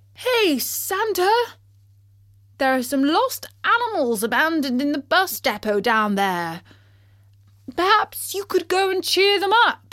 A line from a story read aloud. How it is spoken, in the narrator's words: he called out